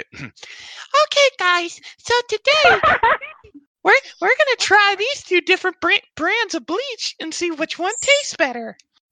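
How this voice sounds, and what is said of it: Imitates another person's voice. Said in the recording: “If I'm going to impersonate Riley, I have to do it the right way.”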